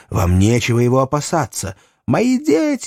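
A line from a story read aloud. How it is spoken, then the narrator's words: Shrieking. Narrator (Russian): визжала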